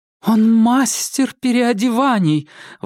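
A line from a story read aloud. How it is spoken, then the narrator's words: Exclamation. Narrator (Russian): воскликнула Клара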